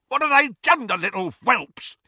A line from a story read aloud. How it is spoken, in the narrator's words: he screamed